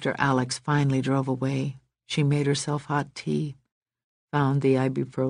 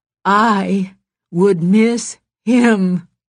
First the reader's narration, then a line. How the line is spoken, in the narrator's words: she said fiercely